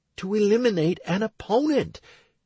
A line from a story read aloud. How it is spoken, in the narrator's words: Stacy exclaimed, unable to contain her emotions